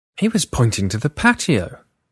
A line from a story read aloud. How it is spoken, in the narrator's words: exclaimed